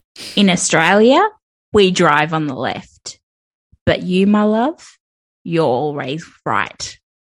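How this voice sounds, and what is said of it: Exaggerated put-on Australian accent. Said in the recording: “in an Australian accent, in a very Australian accent ... I'm just like a sleazy old man”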